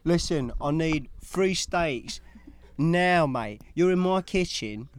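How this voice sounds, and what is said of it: Put-on British accent. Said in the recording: “a proper British motherfucker accent back there down in the kitchen ... It's like Chef Ramsay said”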